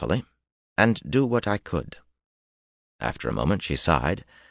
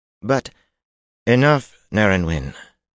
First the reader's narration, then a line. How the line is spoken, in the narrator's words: Katarine said in an icy voice